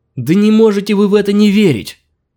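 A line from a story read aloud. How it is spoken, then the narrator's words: Tearful shout. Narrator (Russian): плачуще выкрикнул Аркадий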